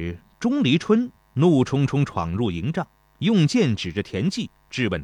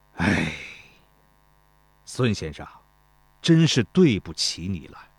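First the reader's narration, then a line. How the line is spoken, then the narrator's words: Long sigh. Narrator (Chinese): 田忌长叹一声，对孙膑道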